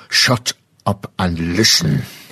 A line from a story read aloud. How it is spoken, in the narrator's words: he growled